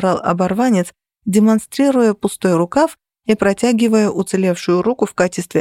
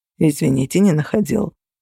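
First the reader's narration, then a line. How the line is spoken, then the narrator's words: Calm. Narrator (Russian): спокойно ответил Феникс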